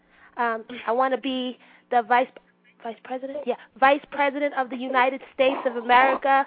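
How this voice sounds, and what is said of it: Sarah Palin impression. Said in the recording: “best Sarah Palin impression”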